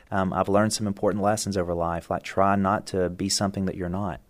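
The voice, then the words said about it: Mild West Virginia accent. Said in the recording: “his West Virginia accent ... you can tell they weren't successful at getting rid of this accent, although it is highly watered down”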